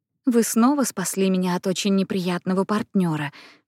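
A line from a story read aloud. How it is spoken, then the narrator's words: Laughing whisper. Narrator (Russian): шепнула Анна со смехом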